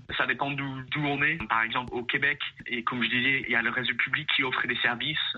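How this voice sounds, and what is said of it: European-sounding accent in French. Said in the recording (French): “malgré mon accent qui a l'air européen”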